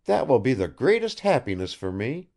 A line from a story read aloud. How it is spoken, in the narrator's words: cried Arkady